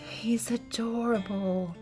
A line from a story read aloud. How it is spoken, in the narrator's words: Mary breathed